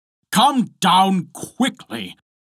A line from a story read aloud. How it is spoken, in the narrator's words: cried Bluebeard